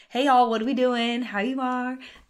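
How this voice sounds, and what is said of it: Put-on Southern US accent. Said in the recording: “I all of a sudden turn like I'm from the South”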